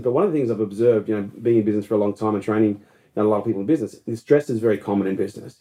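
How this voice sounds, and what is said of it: Speaks with a foreign accent. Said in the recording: “It could be my accent.”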